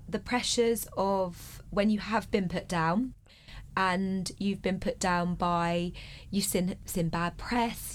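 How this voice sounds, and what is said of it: Slightly congested voice. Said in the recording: “I've got a little bit of a cold”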